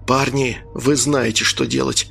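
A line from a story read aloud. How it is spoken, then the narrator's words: Whisper. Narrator (Russian): прошептал капитан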